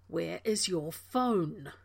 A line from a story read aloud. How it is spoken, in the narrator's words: Rodney growled